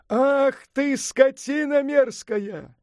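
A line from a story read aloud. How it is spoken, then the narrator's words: Shouting back. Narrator (Russian): заорал в ответ Сунь-Укун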